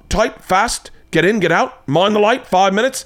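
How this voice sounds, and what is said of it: Deliberately bad put-on accent. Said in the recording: “I'm doing once again horrible accent.”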